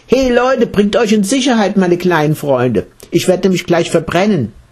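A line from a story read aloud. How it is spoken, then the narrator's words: Rabbit calling out. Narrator (German): schüttelte sich der Hase und rief allen Insekten in seinem Fell zu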